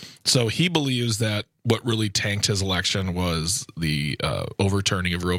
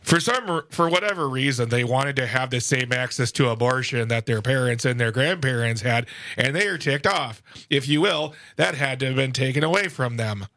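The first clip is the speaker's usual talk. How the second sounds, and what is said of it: Drowsy Mike Lindell-like impression. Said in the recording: “That was quite the impression. ... My Tim Michaels sounds like a Mike Lindell on like a sleeping pill.”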